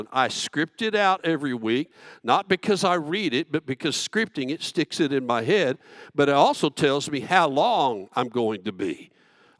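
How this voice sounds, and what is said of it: Slow Southern Texan accent. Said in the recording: “I'm a Texican, I'm a Southerner, I have this accent, I talk slowly.”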